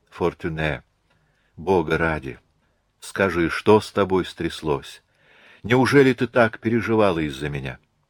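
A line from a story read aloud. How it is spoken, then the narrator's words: Whisper in ear. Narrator (Russian): Марианна прошептала на ух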